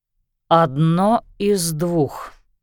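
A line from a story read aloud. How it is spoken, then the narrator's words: Slow, measured. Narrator (Russian): медленно произнес Лещинский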